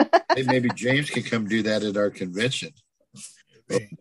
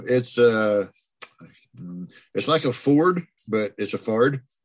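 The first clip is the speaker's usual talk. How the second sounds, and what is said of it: Put-on Southern accent. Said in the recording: “You say it with a southern accent.”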